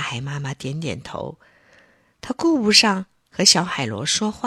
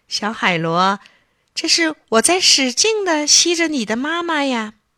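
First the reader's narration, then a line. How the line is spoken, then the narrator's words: Smiling. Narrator (Chinese): 月亮在天上笑着说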